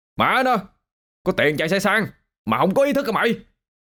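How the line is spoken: Angry loud yelling. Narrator (Vietnamese): Tèo bực bội quát tháo ôm sầm

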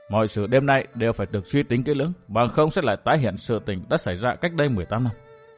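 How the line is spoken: Muttering. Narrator (Vietnamese): lẩm bẩm

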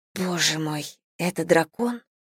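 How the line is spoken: Whisper. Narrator (Russian): прошептала я

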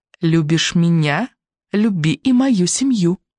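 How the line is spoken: Through gritted teeth, smiling. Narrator (Russian): ослепительно улыбаясь, проговорила сквозь зубы

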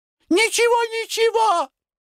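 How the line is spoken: Shouting. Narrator (Russian): закричала Лидия Петровна

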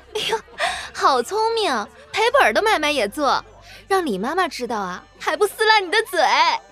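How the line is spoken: Group laughing, teasing scold. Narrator (Chinese): 都笑成一团，都笑骂着

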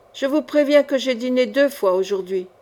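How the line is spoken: Plain. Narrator (French): dit-il

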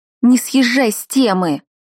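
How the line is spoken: Limp, half-hearted scolding. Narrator (Russian): вяло прикрикнула

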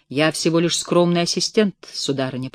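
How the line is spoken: Muttered. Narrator (Russian): пробормотал господин Назария

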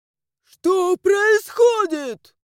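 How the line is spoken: Shrieked. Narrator (Russian): Взвизгнул он

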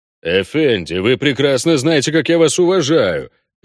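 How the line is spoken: Deep voice, growing indignant. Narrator (Russian): пробасил он, постепенно подпуская в слова возмущения

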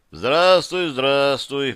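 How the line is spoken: Deep bass voice. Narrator (Russian): пробасил Зев

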